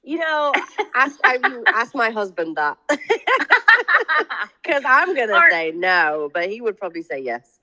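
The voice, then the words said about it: Northern English Doncaster accent. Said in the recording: “originally from Doncaster, the UK, where, as you can tell by her accent”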